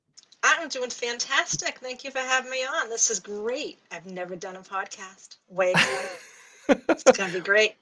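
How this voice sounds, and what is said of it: Regional accent, East Boston. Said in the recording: “I can hear the accent”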